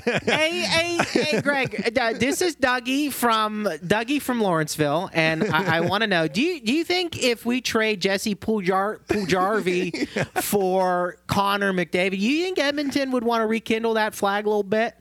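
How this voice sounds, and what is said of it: Put-on Pittsburgh caller accent. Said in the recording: “your Pittsburgh impersonation of whoever from Squirrel Hill calling in”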